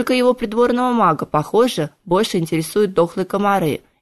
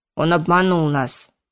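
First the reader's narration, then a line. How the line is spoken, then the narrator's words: Grim snap. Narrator (Russian): мрачно огрызнулся Нагмал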